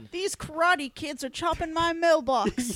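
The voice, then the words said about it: Put-on southern Midwestern accent. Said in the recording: “have a southern Midwestern accent,”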